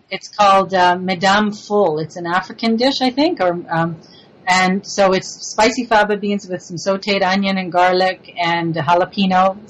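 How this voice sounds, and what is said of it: Slight French-Canadian accent. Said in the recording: “I love your I, accent... It's so cute... I'm originally from Montreal, so I have a little bit of that French influence.”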